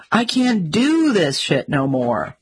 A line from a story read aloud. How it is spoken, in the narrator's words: driver, visibly shaking after having narrowly avoided a bullet, screamed